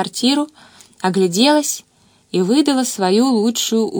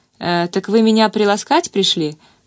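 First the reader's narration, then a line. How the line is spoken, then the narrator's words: Smirking, smiling. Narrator (Russian): хмыкнул Алексей Дмитриевич и широко улыбнулся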